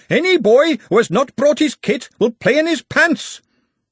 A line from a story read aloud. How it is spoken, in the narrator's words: Ponder Stibbons shouting